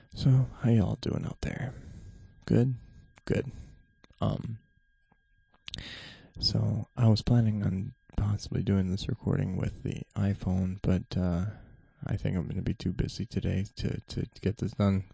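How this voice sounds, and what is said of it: Whispering quietly. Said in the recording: “I got to be as quiet as possible. This is the whispering”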